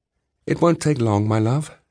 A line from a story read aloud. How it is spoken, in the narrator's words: she said